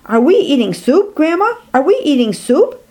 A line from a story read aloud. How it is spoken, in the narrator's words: he blurts out in amazement